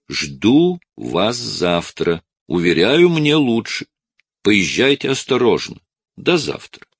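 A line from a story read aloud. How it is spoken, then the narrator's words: Fairly loud persuading. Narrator (Russian): довольно громко уговариваю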